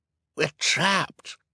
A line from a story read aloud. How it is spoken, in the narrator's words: Klaus said, his voice hoarse with panic